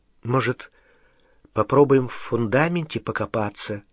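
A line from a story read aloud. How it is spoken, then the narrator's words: Uncertain suggestion. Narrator (Russian): неуверенно предложила Гермиона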